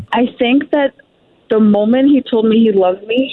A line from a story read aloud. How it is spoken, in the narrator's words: he cried